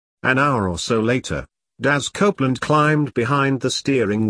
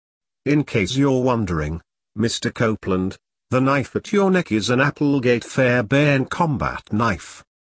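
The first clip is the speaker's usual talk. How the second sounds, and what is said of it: Calm, low, slight West Country accent. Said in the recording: “The voice from the back seat was calm and low. There was a trace of a West Country accent, but the voice was dangerously pleasant.”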